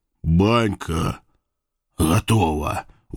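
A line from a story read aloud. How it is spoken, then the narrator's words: Faint exhausted mumble. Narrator (Russian): пробормотать бедняга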